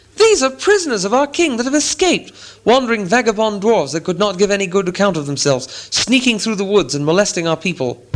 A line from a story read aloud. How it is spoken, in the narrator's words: they cried